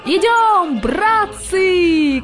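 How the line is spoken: Loudest shouting mosquito. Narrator (Russian): кричал больше всех комар-комарович

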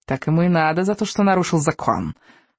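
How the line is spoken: Scornful snort. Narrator (Russian): фыркнула огневица

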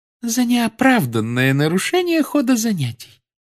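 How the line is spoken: Calm. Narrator (Russian): спокойно произнесла профессор Амбридж

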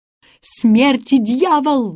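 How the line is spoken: Yelled. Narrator (Russian): завопил голландец

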